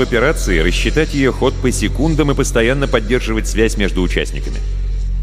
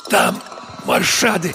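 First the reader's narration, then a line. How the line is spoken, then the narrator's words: Hoarse wheeze. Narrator (Russian): прохрипела она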